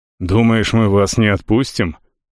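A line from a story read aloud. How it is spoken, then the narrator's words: Chief's skeptical snort. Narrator (Russian): вождь хмыкнул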